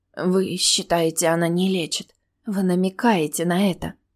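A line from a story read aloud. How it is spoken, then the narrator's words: Whisper. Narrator (Russian): прошептала я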